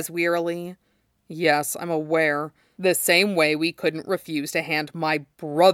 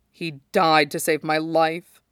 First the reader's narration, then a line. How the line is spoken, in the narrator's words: he says, and he's just drunk enough